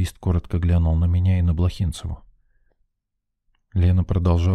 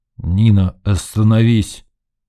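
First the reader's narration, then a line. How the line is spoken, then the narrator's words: Warning growl. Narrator (Russian): предостерегающе рыкнул Сидор Кузьмич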